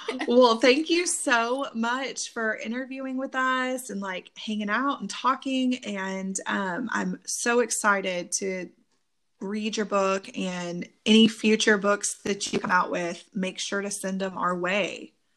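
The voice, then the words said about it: Texas accent with twang. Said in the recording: “We have that Texas twang. ... Yeah, we have the Texas accent.”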